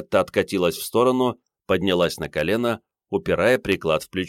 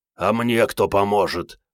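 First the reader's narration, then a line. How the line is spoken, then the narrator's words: Hurried hoarse croak. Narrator (Russian): прохрипел Андрей, торопливо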